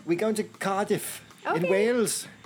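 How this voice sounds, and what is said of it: Put-on accent attempt. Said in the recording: “Stop it. I hate when you try to do accents.”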